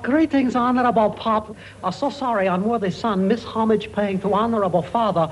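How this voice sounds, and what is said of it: Put-on foreign accent. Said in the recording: “what sort of an accent is that supposed to be? ... I thought it was pretty good”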